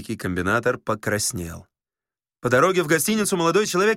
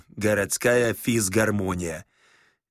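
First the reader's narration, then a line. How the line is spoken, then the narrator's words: Coarse janitor's voice. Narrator (Russian): Александр Ибн Иванович сказал дворницким голосом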